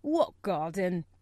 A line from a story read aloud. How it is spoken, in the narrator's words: he said in a rough voice